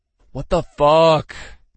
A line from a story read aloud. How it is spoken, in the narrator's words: He groaned